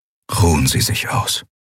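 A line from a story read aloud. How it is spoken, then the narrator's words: Quiet. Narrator (German): sagte Telios leise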